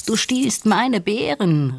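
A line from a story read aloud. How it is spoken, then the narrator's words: Called out. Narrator (German): rief Nandi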